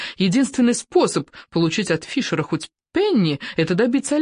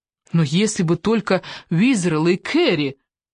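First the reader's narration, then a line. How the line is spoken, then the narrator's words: Pitiful summing up. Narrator (Russian): резюмировала она жалостным тоном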